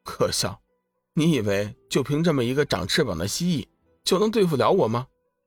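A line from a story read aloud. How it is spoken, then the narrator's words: Calm faint smile. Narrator (Chinese): 龙宇只是淡淡一笑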